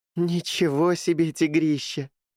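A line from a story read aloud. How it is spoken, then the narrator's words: Laughing. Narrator (Russian): засмеялась Джулия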